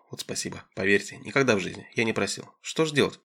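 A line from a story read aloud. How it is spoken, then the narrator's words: Excited smiling mumble. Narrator (Russian): Пыжиков просиял, улыбнулся взволнованно, забормотал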